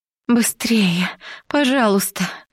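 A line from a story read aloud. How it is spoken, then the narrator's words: Whimpering. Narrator (Russian): проскулила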